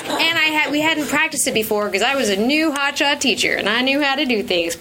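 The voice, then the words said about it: Speaks with an accent. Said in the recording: “you love my accent, probably... I have an accent.”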